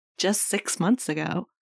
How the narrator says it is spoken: he says with a giggle

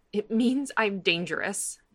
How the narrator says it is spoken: she says brokenly

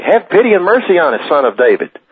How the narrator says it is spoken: two blind men followed him, shouting loudly

